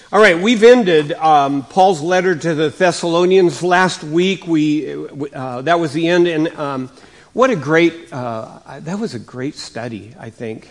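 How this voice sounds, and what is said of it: Slightly raspy voice. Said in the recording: “my voice is a little raspy ... I coughed and coughed and coughed”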